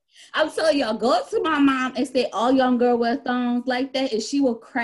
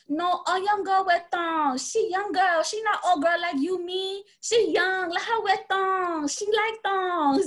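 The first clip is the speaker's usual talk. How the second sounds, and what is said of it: Imitated Asian-accented broken English. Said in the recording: “she sounded like this woman... the accent was on point”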